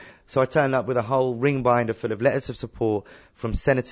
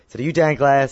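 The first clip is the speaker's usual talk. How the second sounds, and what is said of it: Poor put-on American accent. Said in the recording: “Sorry for my American accent, it's awful.”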